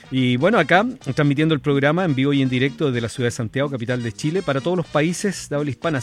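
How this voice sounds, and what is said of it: Polished radio announcer voice. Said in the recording (Spanish): “tiene la voz de locutor”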